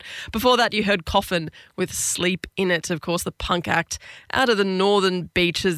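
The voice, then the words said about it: Voice affected by a cold. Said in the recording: “I'm getting over a cold, so my voice is a bit awry this week”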